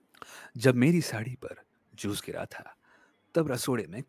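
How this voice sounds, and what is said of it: Documentary narrator style voice. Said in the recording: “the discovery wala voice that you had done ... do that voice”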